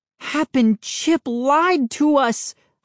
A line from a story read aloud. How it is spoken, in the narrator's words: cried